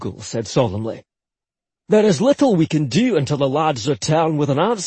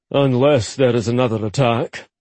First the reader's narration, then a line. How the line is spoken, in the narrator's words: Ollie said grimly